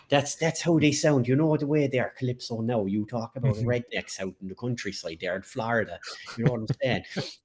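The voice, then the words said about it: Exaggerated rural Irish accent. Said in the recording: “I can ham up the old Irish accent for you ... This would be a bit of an Irish redneck accent now.”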